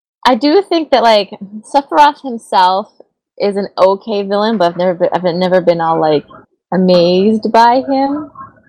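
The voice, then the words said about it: Hoarse, worn-out voice. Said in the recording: “I was losing my voice before we started, anyways.”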